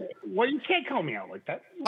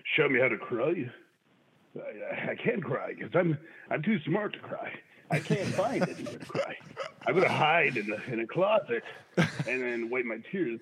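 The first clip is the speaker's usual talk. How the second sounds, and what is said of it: Bad impression of a man's voice. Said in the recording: “bad impressions ... It is an impression of something. It's not Trump, but it is a guy. ... It's not Nixon. ... It's like Seth Rogen. ... I think you've got a Seth Rogen impression”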